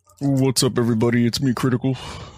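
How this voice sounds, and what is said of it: Imitates another person's voice. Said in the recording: “your best Charlie impression ... It's not bad.”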